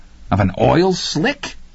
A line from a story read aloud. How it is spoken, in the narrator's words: Laverne asked incredulously and then laughed